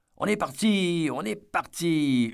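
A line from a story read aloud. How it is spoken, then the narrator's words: Piercing child's yell. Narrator (French): hurla l'un des gamins d'une voix perçante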